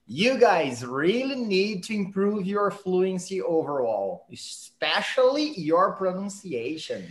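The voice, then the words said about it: Poorly pronounced, heavily accented English. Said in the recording (Portuguese): “falando isso aqui deu até uma dor no ouvido... a pronúncia do ... péssima... você falou pronunciation, deveria ser pronunciation”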